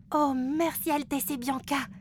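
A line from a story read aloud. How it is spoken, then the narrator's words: Exclaim. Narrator (French): s'exclame Flora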